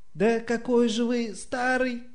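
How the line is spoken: Exclaimed. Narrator (Russian): воскликнул первый министр

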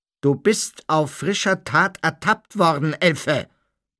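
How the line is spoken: Blustering. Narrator (German): polterte Mr

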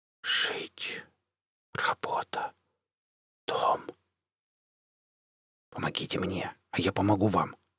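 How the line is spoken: Whisper. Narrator (Russian): шепнул я

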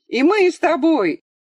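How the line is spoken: Two boys shouting. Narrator (Russian): закричали оба мальчика

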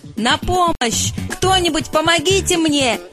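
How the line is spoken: Shouting for help. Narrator (Russian): закричал жираф

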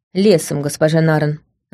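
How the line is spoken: Grumbling. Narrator (Russian): буркнул Лаурин

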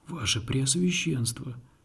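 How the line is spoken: Whispering old man. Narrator (Russian): прошептал старый миллиардер

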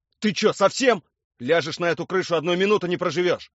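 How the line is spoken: Yelling. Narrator (Russian): Орал он на меня

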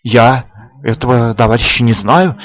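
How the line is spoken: Uncertain. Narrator (Russian): неуверенно заговорил Коваленко

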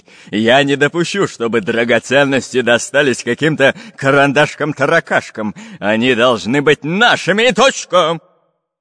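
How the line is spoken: Menacing bark. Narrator (Russian): Грозно рявкнул он

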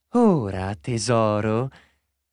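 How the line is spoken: Very sweet tone. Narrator (Italian): in tono molto dolce

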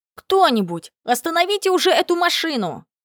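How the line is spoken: Shouted. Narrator (Russian): выкрикнул Проханов Ваня

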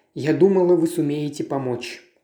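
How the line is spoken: Plain. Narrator (Russian): ответила миссис Оливер

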